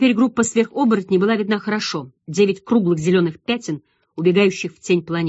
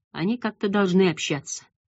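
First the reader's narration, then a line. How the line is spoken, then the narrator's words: Quiet. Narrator (Russian): негромко сказал Банглин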